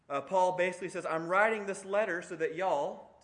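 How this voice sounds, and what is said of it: Put-on Southern accent. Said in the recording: “in a southern accent he said that”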